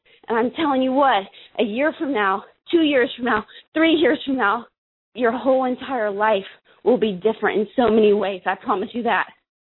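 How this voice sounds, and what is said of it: Out of breath, breathless voice. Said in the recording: “Now that I'm out of breath”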